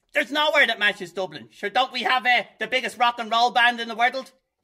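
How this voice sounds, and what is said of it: Strong Dublin accent. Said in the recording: “He's got a very strong Dublin accent”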